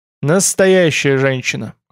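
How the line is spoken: Snorting. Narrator (Russian): хмыкнул Тмор

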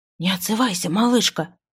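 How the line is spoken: Trembling whisper. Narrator (Russian): прошептала она с легкой дрожью в голосе

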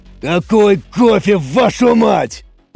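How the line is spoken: Booming voice in room. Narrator (Russian): прогремел голос Самсона, но уже не в рации, а прямо в лаборатории

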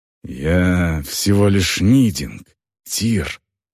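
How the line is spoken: Growl. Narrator (Russian): прорычала она

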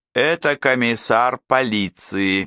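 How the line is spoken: Mechanical reporting voice. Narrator (Russian): механическим голосом доложил истукан

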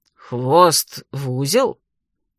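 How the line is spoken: Surprised drawl. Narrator (Russian): удивленно протянула Марвия

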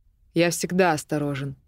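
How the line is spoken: Cold curt reply. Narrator (Russian): отрезал Драван холодно

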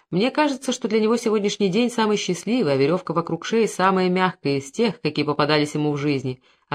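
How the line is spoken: Plain. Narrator (Russian): ответил адъютант

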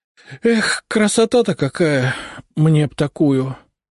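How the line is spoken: Envious sigh. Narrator (Russian): с завистью вздохнул он

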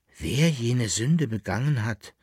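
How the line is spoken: Plain. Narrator (German): sagte es

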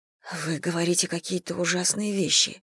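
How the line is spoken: Mumbled. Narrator (Russian): пробормотала

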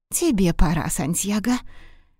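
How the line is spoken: Whisper. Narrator (Russian): прошептала главная кухарка

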